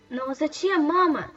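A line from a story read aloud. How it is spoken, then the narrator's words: Embarrassed exclamation. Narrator (Russian): смущенно воскликнула Садака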